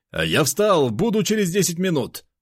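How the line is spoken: Shouting. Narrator (Russian): крикнув

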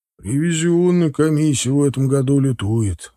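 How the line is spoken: Sighing. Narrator (Russian): вздохнул Олегович

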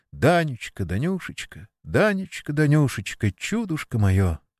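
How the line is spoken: Broken breathless whisper. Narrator (Russian): выдыхивать прерывистым шепотом

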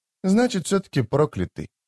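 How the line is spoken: Mumbling. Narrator (Russian): пробормотала Дымка

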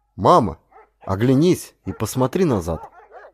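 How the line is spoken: Calm, relieved. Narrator (Russian): уже успокоившись, потому что опасность миновала, спокойно сказал

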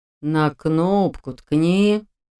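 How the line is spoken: Weary, wise old drawl. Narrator (Russian): тоном утомленного жизнью и собственной мудростью старца протянул он

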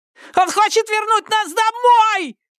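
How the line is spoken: Shouted. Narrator (Russian): крикнул Бен

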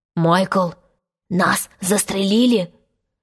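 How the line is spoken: Trembling whisper. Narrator (Russian): спросил Джон дрожащим шепотом

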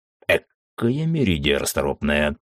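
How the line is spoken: Amused snort. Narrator (Russian): хмыкнул Мизраэл

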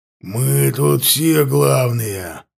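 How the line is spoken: Growling. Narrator (Russian): прорычал он

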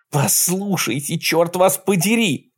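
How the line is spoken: Shouted. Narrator (Russian): закричала Кэтлин

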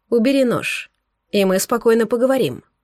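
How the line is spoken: Quiet. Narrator (Russian): произнес Булат тихо

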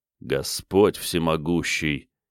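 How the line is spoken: Quiet. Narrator (Russian): тихо сказал он

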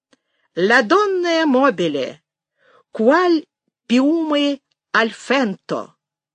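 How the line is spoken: Very loud singing. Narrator (Russian): пою не я, а кто-то рядом, и очень громко

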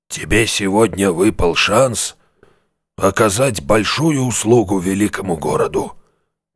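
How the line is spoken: Solemn. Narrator (Russian): торжественно произнес Шептун

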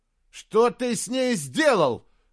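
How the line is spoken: Shouting. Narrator (Russian): закричал он

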